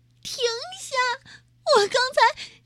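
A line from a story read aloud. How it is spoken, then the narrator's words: Crying, panicked. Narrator (Chinese): 马若丽没时间逃跑了，她哭着说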